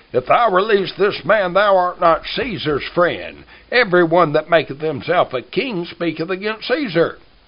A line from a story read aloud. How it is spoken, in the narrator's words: the Jews cried out, saying